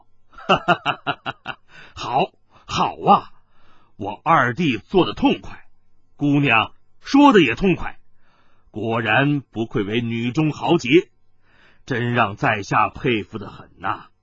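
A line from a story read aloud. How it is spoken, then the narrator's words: Hearty laughter. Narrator (Chinese): 朱藻抚掌大笑道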